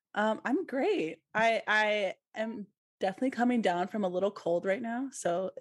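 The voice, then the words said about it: Slightly raspy voice. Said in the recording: “excuse my voice. It's a little raspy”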